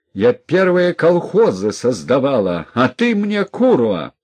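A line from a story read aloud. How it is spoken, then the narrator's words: Loud shout. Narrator (Russian): громко закричала теща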